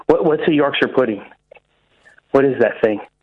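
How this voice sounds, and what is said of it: Bad put-on American accent. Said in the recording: “That was the worst American accent I've ever heard.”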